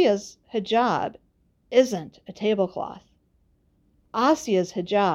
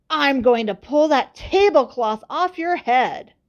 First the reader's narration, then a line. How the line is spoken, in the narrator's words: a boy yelling